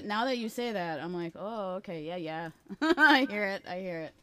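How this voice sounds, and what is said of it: Exaggerated Wisconsin Midwestern accent. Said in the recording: “Holy Midwestern accent, Batman. ... I just pulled out the full Wisconsin.”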